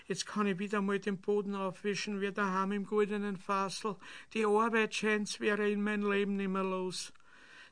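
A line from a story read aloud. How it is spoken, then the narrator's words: Whining. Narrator (German): jammerte sie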